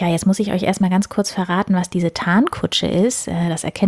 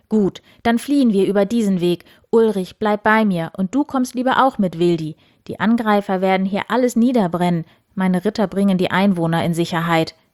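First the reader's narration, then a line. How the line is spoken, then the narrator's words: Decisive call. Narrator (German): rief Eberhard entschieden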